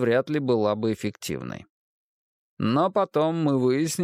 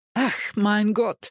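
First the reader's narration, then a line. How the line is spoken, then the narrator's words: Pained exclamation. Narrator (Russian): воскликнул он, отбрасывая горящую спичку и зализывая большой палец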